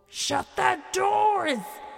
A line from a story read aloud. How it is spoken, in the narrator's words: he yelled